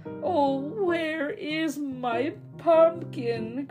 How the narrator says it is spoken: croaked the old man

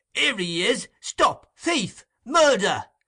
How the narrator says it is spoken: Chickweed roars out

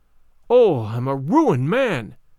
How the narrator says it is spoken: cried he

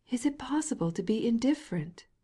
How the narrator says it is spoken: cried Lydia Ivanovna

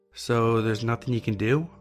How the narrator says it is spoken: asked

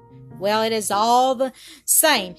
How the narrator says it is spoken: his tormentor called back with a coarse laugh

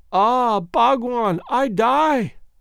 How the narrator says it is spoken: gasped the beautiful creature

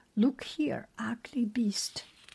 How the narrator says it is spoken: Zeus cried

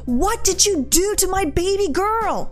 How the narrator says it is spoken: Entitled Mother, screaming

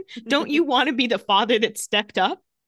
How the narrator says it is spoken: Caroline screams again

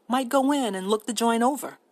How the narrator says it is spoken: said George

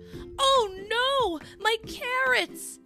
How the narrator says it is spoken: yelled Rabbit

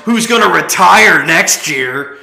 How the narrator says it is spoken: the guy yells

